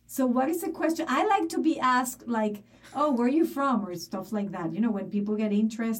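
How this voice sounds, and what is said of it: Noticeable non-local accent. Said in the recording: “it's obvious you're not from here ... Well, it is obvious. Like, how much more do you need than the accent?”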